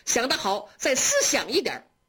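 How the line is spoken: Laughing. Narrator (Chinese): 宝玉在旁边笑着说

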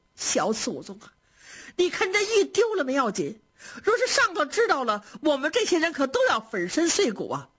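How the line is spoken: Anxious, shouting and crying. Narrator (Chinese): 袭人是急得又嚷又哭

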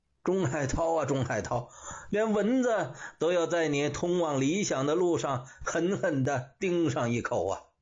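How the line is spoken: Wry laugh. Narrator (Chinese): 钟海涛苦笑着

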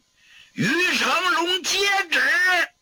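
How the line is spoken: Loud shout. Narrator (Chinese): 明珠高声喝喊

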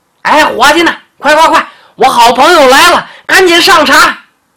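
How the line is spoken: Loud hollering. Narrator (Chinese): 长脖鹿转头就开始嚷嚷

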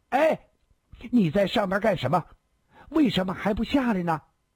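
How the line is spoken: Loud, impulsive. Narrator (Chinese): 孙小红忍不住大声地说

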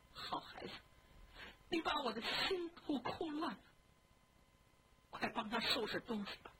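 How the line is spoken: Tearful, anxious. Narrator (Chinese): 李纨一边哭一边着急 说

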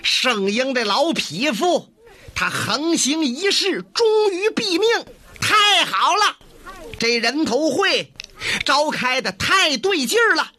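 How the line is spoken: Shouting. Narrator (Chinese): 站起来有人喊上了

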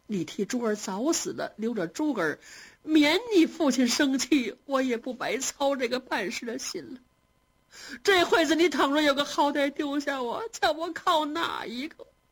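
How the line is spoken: Scolding while weeping. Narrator (Chinese): 王夫人如此数落着，又哭

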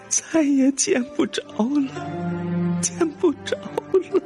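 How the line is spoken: Sobbing, mumbling grief. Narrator (Chinese): 泪流满面的夫人一想到自己那白白胖胖活蹦乱跳的小心肝死的是那样的凄惨，连个尸首也没留下，又是一阵嚎啕大哭，一边哭一边喃喃地说

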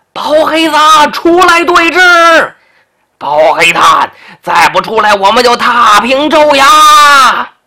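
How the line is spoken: Thunderous crowd shouting. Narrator (Chinese): 州衙外头喊声震天

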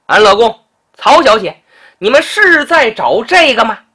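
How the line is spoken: Shout from nearby. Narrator (Chinese): 不远处有人喊道

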